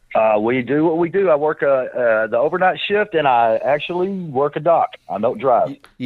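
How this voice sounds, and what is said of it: Texan accent. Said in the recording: “You are from Dallas, Texas, and you have the accent to prove it”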